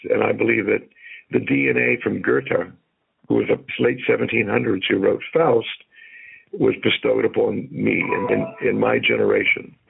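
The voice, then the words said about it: Hoarse, whispery voice. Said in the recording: “excuse me for being so hoarse ... You're whispering in my ear with that hoarse voice”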